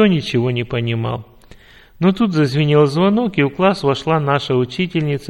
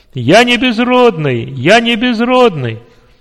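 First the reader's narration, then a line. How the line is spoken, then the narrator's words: Joyful loud shout. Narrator (Russian): радостно и громко закричал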